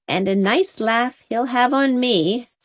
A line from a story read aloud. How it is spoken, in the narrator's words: said Susan happily